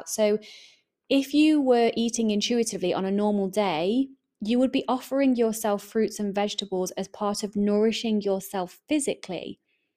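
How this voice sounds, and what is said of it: English accent. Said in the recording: “I am English, my accent kind of gives that away”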